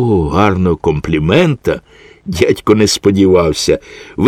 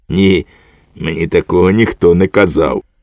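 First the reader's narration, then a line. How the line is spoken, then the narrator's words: Soft laugh while speaking. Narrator (Ukrainian): тихенько засміявся і мовив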